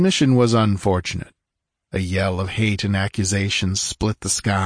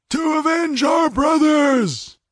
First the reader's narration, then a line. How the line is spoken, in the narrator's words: they howled